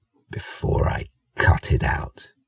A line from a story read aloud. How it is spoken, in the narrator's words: Esben said, his voice barely audible